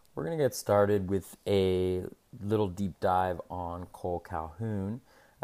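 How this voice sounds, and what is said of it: Deeper, scratchy voice. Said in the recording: “my voice is a little deeper or scratchier than usual. I'm fighting a little bit of a cold here”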